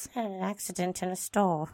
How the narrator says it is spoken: David replied in a mumbled voice

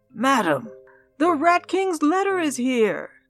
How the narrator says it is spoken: Darling shouted

